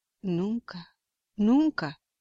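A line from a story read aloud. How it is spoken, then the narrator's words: Exclaiming. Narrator (Spanish): exclamó Smith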